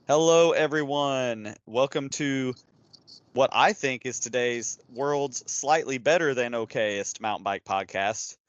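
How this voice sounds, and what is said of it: Unusually energetic voice. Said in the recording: “I have a lot more energy than normal”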